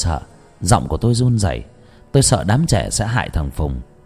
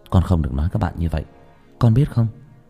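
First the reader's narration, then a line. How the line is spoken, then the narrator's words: Soft speech. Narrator (Vietnamese): tôi khẽ nói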